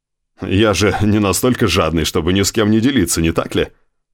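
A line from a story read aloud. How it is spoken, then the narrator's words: Plain. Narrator (Russian): сказал Боуби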